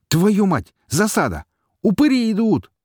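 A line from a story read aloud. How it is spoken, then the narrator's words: Shout. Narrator (Russian): закричал пришлый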